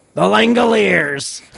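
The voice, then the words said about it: Gruff gravelly narrator-style voice imitation. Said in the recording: “has such a gruff and gravelly and distinctive voice ... sounds, like, very much like it was recorded in the 90s ... to do a stupid imitation”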